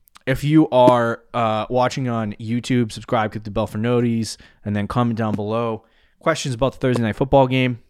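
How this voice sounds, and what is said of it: Out of breath. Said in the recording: “I don't know why I'm out of breath.”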